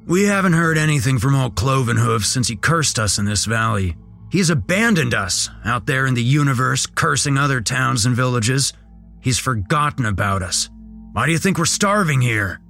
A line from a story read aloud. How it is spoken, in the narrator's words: Mark barked, full of animosity